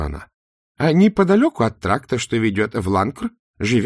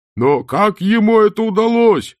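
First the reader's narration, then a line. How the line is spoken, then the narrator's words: Shout from crowd. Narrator (Russian): крикнул кто-то из толпы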